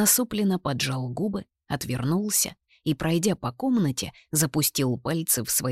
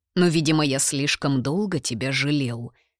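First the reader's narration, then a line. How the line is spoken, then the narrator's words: Sharp tone. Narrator (Russian): резким тоном проговорил отец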